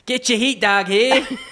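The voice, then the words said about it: Stadium hot dog vendor shouting. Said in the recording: “give me your best hot dog salesman impression.”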